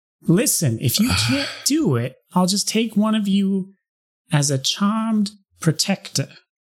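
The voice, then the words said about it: Character voice. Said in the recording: “watching my brother do this voice”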